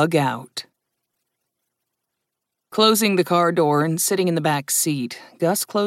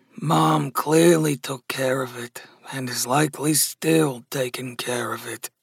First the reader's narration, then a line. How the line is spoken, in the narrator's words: Gus muttered